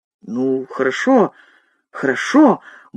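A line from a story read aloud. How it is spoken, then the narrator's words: Grumbled mutter. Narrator (Russian): буркнул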